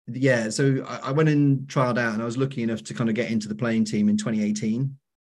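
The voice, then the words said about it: Strong Welsh accent. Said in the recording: “my very strong accent. ... I'm very much Welsh.”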